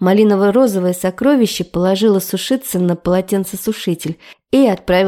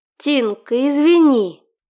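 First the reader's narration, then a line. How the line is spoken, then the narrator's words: Moaning. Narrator (Russian): Простонала Семенова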